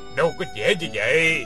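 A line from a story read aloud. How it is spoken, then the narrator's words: Scornful, wry laugh. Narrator (Vietnamese): Lão Trùm lái cá cười nhạt nói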